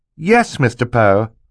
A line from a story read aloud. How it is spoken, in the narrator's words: Violet said